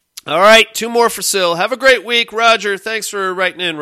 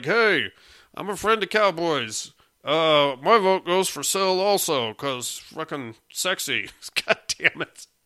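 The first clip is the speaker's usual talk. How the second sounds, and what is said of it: Imitates another person's voice. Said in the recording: “That was a terrible impression of Cowboy”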